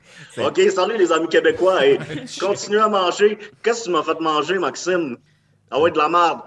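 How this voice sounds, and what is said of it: Put-on Québécois French accent. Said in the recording (French): “je vais prendre mon, l'accent québécois”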